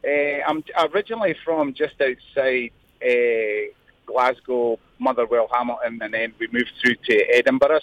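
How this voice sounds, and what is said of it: Scottish accent. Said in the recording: “I'm loving the accents. Uh, which part of whereabouts in Scotland you from?”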